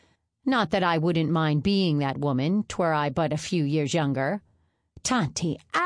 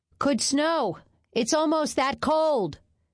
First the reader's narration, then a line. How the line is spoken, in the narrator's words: shouted Leif Ransom